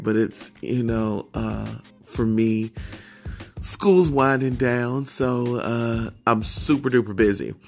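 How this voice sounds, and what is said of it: Tired-sounding voice. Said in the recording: “excuse my voice. I know I sound tired,”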